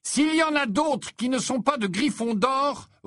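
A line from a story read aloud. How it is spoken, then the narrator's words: Angry roar. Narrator (French): rugit Harry qui commençait à s'énerver sérieusement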